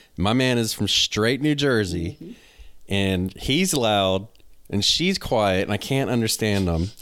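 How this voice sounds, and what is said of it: Southern US country accent. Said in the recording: “I got a country accent. I'm from the South.”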